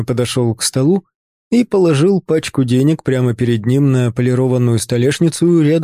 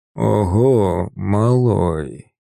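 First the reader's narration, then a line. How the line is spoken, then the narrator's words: Hoarse respectful drawl. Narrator (Russian): Протянул, в его хриплом голосе впервые за все наши встречи появились нотки не насмешки или презрения, а чего-то похожего на уважение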